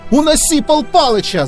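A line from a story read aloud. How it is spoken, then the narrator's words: Yelled. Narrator (Russian): заорал Крутой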